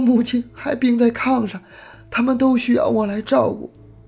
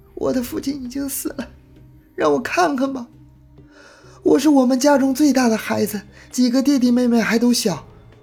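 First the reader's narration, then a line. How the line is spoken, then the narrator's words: Weeping pleading. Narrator (Chinese): 他一边哭一边哀求着说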